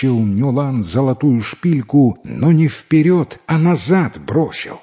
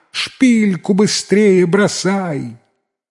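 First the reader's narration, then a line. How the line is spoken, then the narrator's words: Shouting. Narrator (Russian): Теща тоже закричала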